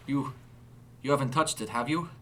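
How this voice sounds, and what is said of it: German accent. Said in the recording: “a German accent now readily apparent on his tongue”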